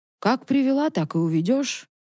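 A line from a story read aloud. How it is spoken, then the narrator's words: Calm reply. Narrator (Russian): спокойно ответила Малица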